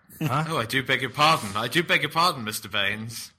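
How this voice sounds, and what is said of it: Put-on posh accent. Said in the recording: “Is that your attempt at my literally. Accent? Is that your impression of me? ... it was just a generic... generic. I was going to say a generic posh person”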